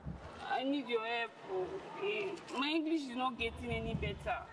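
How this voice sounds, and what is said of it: Non-native accented pidgin English. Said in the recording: “it's not your English, it's your accent ... No more pidgin English.”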